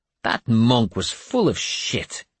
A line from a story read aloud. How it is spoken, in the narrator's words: he said scornfully